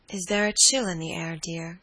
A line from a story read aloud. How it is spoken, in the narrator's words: she said drowsily